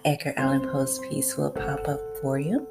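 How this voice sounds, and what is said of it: Slight Southern American twang. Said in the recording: “my little southern twang”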